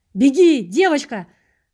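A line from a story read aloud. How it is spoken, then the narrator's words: Hoarse, straining shout. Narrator (Russian): Срывая голос, закричал я ей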